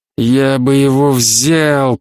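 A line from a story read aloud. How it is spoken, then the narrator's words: Grumbling, mid-argument. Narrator (Russian): проворчал он, видимо, продолжая уже давно начавшуюся перепалку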